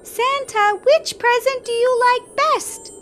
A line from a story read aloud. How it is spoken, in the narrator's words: Emma soon piped up